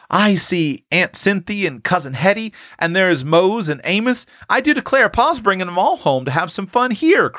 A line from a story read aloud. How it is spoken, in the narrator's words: cried Prue as she recognized one familiar face after another